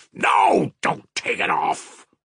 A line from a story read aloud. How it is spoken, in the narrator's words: cried Mitya furiously, suddenly waking up and angry with himself